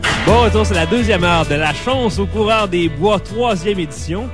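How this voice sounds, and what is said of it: Put-on accent. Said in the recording (French): “t'as comme deux personnalités, là, je te reconnais plus... Mon accent, je pourrais le garder valeur que l'émission complète.”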